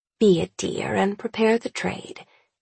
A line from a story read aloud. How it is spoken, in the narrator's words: Annabelle murmurs